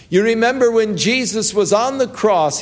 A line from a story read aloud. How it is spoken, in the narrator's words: he cried